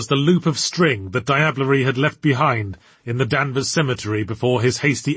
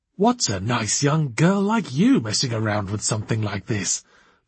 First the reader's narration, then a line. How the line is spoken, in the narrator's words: breathed Archibald